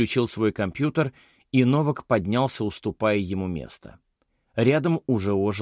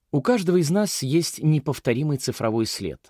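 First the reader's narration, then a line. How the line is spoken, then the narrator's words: Sighing. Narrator (Russian): Мэй вздохнула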